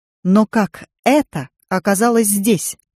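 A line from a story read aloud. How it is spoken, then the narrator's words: Sharp question. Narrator (Russian): резко спросил мужчина в костюме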